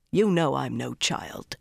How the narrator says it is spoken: Rand told her sharply

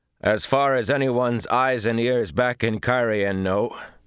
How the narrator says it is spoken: he said loudly

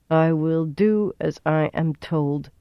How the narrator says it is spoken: she said at last in a flat voice

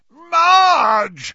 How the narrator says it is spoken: yelled Uncle Vernon and Aunt Petunia together

